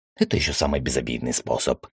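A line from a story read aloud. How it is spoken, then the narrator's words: Fearless, with a snort. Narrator (Russian): хмыкнул, сказал я без страха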